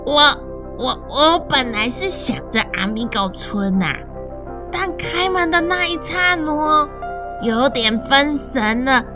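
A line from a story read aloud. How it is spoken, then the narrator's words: Quiet, sheepish. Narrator (Chinese): 布谷啊，小声且带一点惭愧的说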